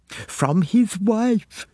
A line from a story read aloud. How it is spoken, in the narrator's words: gasped Pamela Cregan